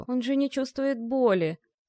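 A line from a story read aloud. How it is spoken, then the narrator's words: Inner groan. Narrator (Russian): Мысленно простонал Витька, лежа на земляном полу подвала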